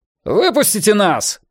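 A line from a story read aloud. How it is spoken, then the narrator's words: Shouting. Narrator (Russian): прокричал Йона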